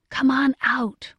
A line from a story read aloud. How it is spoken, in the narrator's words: whispered Diamond